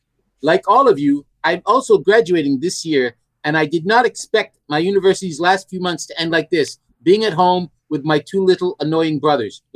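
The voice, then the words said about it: Imitates another person's voice, with accent. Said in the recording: “because you did an accent.”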